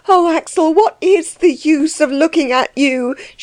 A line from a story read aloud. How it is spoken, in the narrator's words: she cried in despair